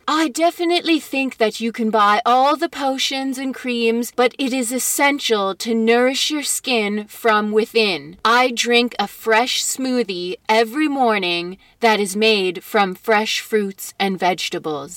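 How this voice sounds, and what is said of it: Bad put-on British accent. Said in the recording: “I started to give her a British accent. ... that was a terrible Heidi Klum. ... Not the shitty one you gave her.”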